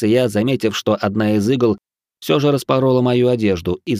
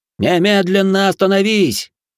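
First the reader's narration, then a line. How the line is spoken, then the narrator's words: Nobleman shouting. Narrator (Russian): крикнул вельможа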